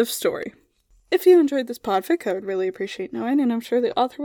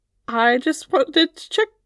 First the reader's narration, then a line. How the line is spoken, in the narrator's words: she stammered out